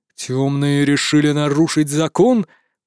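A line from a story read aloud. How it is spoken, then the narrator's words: Growl. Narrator (Russian): прорычал командор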